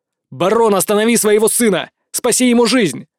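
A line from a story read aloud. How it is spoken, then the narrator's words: Shouted. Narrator (Russian): прокричал я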